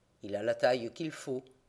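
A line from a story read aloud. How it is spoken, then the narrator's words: Murmured. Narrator (French): murmure Fred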